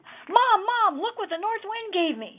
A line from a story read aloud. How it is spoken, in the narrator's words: shouted excitedly